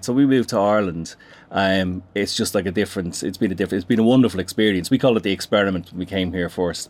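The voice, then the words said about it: Dublin Irish accent. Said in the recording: “I was discerning a Dublin accent there”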